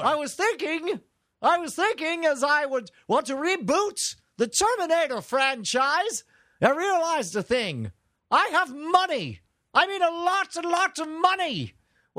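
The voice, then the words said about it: Shouty voice, slightly English accent. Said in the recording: “I don't want to quite give him an English accent, but he just kind of shouts a lot.”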